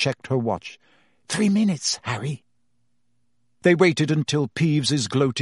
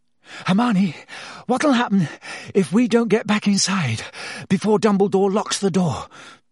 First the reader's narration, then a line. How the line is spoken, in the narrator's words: Harry panted